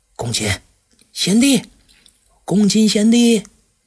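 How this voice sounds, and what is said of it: Quiet, hushed calling. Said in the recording (Chinese): “小声叫了两次”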